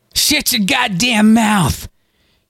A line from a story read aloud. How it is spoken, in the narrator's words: he shouted down at Galen